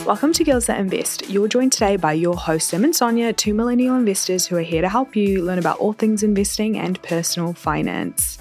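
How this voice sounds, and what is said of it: New Zealand accent. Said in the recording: “my accent is still like Kiwi. No Canadian influence here.”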